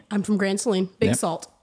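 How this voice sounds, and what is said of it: Regional Texas accent. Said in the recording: “If you couldn't tell by the accent, Grand Saline.”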